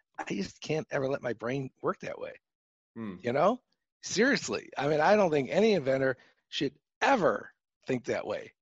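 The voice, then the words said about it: Chicago accent. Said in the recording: “my Chicago accent I have”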